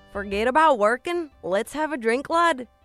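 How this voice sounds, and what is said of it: Attempted Irish accent, sounds Southern American. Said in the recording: “Irish accent... That sounded like you're from Alabama”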